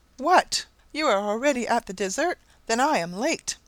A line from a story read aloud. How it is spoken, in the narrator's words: she exclaimed with a winsome naivety